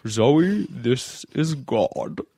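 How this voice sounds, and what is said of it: God voice like a TV narrator. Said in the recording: “I can do this voice ... Sound like the Days of Our Lives narrator.”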